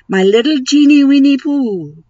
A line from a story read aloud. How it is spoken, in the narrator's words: cried Moomin Troll